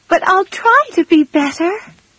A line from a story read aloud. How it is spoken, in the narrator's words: she cried